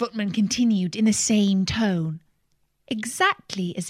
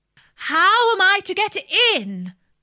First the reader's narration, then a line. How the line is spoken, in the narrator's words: said Alice in a louder tone